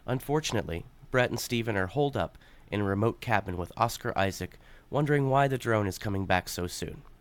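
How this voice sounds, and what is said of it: Calm public-radio announcer voice. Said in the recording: “this is my NPR voice.”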